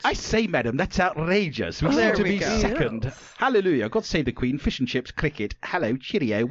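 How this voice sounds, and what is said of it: Put-on British accent. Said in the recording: “I want you to do an accent for every one you go through ... United Kingdom.”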